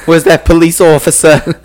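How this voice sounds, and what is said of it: Put-on New York accent. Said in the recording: “I think that's more of a New York accent”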